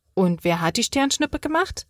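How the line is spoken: Plain question. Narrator (German): fragt Lana

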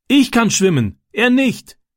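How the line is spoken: Calling back. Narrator (German): rief Francis zurück

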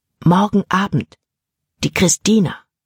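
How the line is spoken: Whispered in ear. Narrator (German): flüsterte er in Jordans Ohr

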